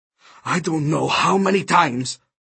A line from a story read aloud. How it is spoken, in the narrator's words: he muttered